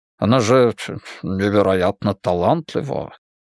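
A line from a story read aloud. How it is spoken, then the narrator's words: Embarrassed mumble. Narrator (Russian): смущенно бормочет он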